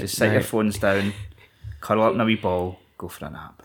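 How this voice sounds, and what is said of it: Sultry Scottish accent. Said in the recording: “the Scottish accent is so sultry”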